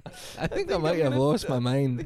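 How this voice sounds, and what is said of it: Ridiculous put-on accent. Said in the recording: “this ridiculous accent”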